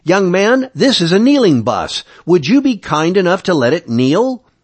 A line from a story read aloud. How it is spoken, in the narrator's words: A voice right behind me barked